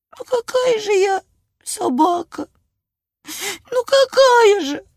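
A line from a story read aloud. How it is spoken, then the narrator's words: Sobbing puppy. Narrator (Russian): всхлипывал щенок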